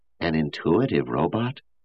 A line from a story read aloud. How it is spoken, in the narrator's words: someone muttered